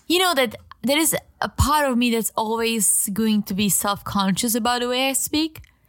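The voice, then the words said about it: Deep female voice with accent. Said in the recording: “I think my voice is a little too deep for a lady. ... And the accent”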